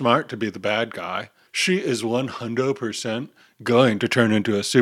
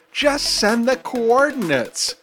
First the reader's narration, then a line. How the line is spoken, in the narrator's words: Kirby yells into the comms